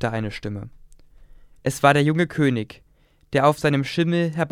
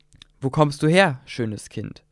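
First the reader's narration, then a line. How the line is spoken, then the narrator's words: Plain. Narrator (German): fragte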